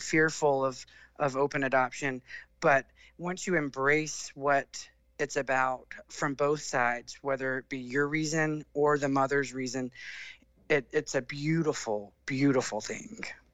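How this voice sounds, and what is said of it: Southern US accent. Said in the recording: “accent is so good ... much better than a British accent ... a really good Southern accent that's just the best”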